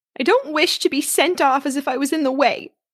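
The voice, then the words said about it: Injured, aggrieved tone. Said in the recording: “in an injured voice”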